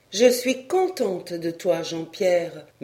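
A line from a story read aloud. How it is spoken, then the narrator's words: Plain. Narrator (French): me dit-elle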